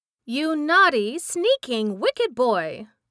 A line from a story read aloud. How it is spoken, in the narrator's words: she exclaimed furiously